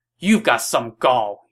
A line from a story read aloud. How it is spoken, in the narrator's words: shouted